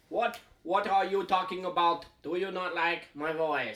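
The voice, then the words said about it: Generic put-on foreign accent. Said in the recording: “I don't even know what accent that was ... I'm just making voices now ... Generic foreigner”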